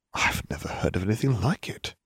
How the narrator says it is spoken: Harry whispered reverently

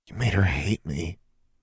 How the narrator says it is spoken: she whispered

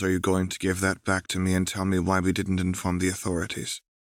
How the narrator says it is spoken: Rose said this stiffly

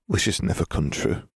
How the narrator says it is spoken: muttered, tears

